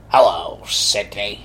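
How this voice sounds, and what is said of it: Imitates a horror movie villain voice. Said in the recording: “That's a great impression of the Scream Mask.”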